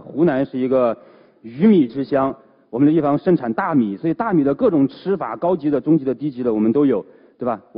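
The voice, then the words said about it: Hunan-accented Mandarin. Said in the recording (Chinese): “大家一听我的口音，知道我肯定是一个湖南人”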